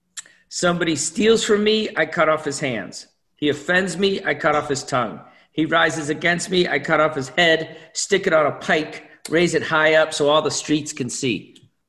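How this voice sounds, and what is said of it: Put-on accent while quoting. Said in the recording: “I even went into a little accent there for you all.”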